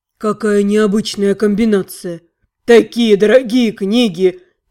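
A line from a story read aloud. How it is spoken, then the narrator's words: Sad whining. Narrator (Russian): печально ныл директор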